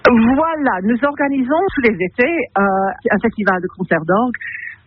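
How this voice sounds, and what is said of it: Slight English accent in French. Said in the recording (French): “votre joli petit accent anglais”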